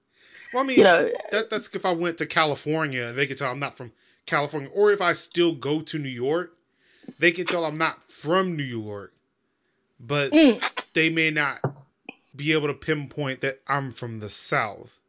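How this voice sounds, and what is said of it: Clean Midwestern American accent. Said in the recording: “I think your accent is more it's quite clean in terms of an accent ... I think you're more Midwest. So it's more of a Midwest, middle America kind of vibe.”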